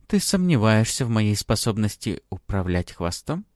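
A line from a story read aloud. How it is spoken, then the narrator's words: Silky, insinuating question. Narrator (Russian): вкрадчиво интересуюсь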